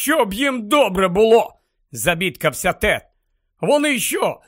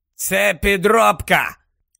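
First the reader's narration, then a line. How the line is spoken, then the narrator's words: Hoarse curt remark. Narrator (Ukrainian): хрипко кинув Грипхук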